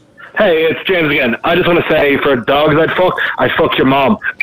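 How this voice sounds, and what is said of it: Irish accent like Conor McGregor. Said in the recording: “I think the accent sold it. ... It sounded like Conor McGregor.”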